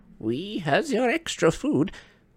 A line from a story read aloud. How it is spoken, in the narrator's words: squeaked an elf